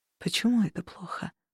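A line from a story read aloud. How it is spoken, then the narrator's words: Barely audible, frozen voice. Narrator (Russian): едва слышно спросил мой зеленоглазый принц замороженным голосом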